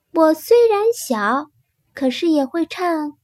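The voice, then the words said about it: Soft, quiet small voice. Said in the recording (Chinese): “小声地说”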